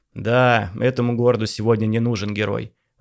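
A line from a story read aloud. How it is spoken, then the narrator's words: Sighing. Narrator (Russian): вздохнул Самойлов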